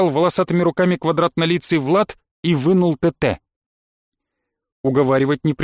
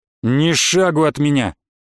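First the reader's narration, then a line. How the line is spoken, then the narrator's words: Menacing warning. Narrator (Russian): грозно предупредил Влад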